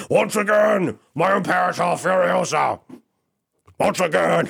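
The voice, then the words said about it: Impression of Immortan Joe's voice. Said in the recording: “I'm impersonating Immortan Joe”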